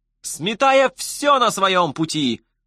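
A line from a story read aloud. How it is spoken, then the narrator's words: Blaring radio yell. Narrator (Russian): вопило радио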